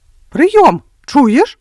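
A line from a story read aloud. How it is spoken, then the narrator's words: Shouting into ear. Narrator (Belarusian): крыкнуў Уладзік на вуха Андрэю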